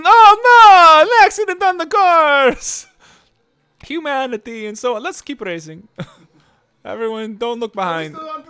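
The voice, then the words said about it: Bad Italian Mario-style accent. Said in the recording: “That's the worst, like, Mario/Italian accent in the entire universe”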